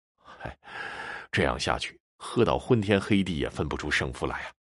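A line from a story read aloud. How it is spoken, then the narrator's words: Sighing. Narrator (Chinese): 秦不醉叹息道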